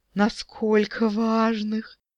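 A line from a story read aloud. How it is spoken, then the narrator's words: Weak moan of desire. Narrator (Russian): слабеющим от вожделения голосом простонала дриада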